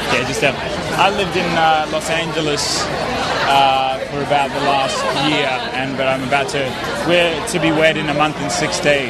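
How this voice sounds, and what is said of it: Australian accent. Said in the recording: “So you got an accent. ... Sydney, Australia.”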